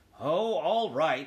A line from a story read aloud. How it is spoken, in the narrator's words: grumbled